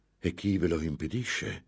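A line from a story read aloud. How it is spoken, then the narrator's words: Exclaimed. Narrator (Italian): esclamò Ambrosio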